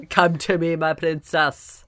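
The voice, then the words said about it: Mixed indeterminable vampire accent. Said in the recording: “it's every accent. I just did all of them all together... he's indeterminable. He's a vampire.”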